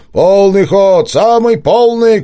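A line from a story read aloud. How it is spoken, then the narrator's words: Distant shouting. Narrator (Russian): кричал с берега Василий Никитич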